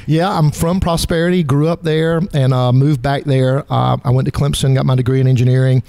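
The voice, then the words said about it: Southern American accent. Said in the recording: “that Southern accent, for crying out loud”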